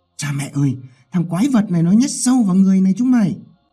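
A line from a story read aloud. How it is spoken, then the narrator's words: Terrified loud yell. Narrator (Vietnamese): Một thằng mặt tái mét hét lớn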